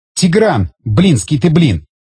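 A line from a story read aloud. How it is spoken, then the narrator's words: Indignant exclamation. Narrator (Russian): негодующе воскликнула Рита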